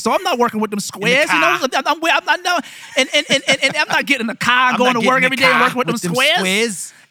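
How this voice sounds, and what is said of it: Put-on Boston accent. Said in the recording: “that Boston accent from some of my white Bostonian neighbors”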